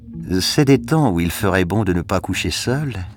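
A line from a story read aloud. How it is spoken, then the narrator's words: Dreamy tone. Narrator (French): fit la femme d'un ton rêveur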